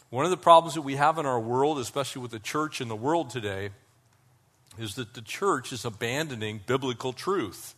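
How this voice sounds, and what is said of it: Voice with a slight cold. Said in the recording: “I've got a little bit of a cold”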